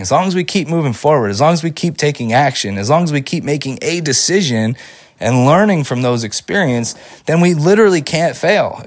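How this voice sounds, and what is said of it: Voice slightly off from a cold. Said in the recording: “my voice sounds a little bit different today. I'm I'm recovering from like this cold that has lasted way too long”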